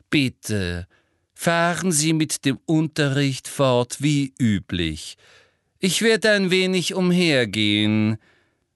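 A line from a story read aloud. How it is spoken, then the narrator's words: Very loud and slow. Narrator (German): sagte wiederum sehr laut und langsam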